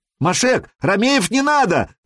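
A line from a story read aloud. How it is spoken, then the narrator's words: Shout in foreign tongue. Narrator (Russian): крикнул Сергей по-хузарски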